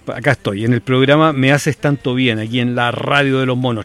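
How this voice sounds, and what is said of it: Professional radio announcer voice. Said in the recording (Spanish): “qué voz de locutor la que te manda”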